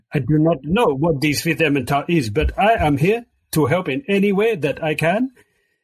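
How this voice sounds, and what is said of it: Ambiguous put-on golem character accent. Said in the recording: “It's a golem accent ... this one might be French or might be Chinese ... this is a non-geographic golem”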